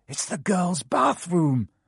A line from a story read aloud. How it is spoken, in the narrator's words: Harry gasped